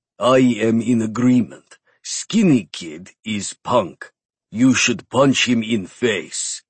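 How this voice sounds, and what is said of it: Heavy Russian accent, gruff giant. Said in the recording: “The huge man said with a heavy Russian accent.”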